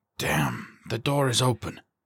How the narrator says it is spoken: he muttered

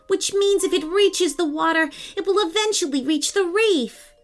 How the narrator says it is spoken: shouted

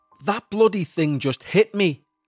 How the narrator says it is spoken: Alan cried

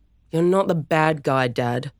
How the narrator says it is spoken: Storm groaned

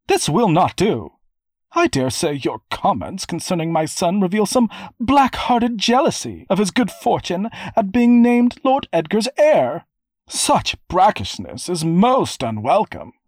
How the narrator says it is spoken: Dame Nora was exclaiming

